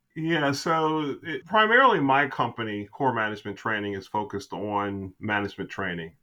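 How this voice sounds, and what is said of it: Big booming radio voice. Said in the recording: “his big booming voice, you know, this radio voice.”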